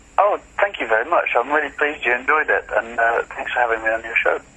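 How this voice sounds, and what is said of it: British accent. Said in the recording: “You have a very British accent there”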